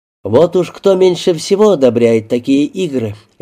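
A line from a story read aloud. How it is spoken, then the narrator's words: Cheerful speech. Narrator (Russian): весело произнес Аллен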